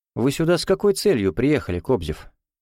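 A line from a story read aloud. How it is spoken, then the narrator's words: Calm question. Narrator (Russian): спокойно спросил Кричко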